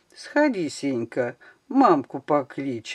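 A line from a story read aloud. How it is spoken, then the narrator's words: Gentle, affectionate. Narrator (Russian): ласково обращается он к мальчугану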